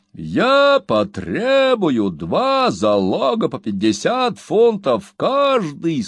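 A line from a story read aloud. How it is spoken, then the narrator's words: Loud, dignified. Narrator (Russian): сказал судья громко и с большим достоинством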